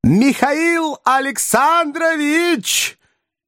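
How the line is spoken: Shouting after someone. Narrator (Russian): крикнул он вдогонку Берлиозу

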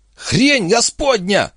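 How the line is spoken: Shriek. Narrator (Russian): взвизгнул Вимс

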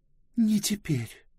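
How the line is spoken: Barely audible. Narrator (Russian): еле слышно сказала Близ

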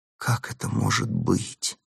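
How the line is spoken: Fearful whisper. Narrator (Russian): прошептала она со страхом

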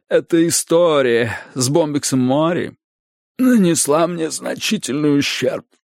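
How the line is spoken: Hoarse rasp. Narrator (Russian): прохрипела она

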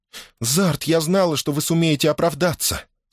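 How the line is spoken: Relieved exclamation. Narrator (Russian): С облегчением воскликнула она

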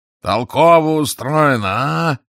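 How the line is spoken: Yelling. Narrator (Russian): заорал Гарри

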